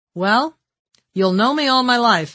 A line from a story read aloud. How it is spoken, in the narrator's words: I answered